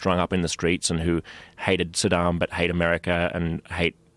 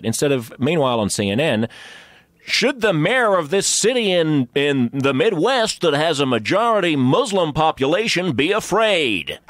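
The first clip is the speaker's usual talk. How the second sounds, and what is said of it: Put-on American news-anchor accent. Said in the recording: “That was a total American accent.”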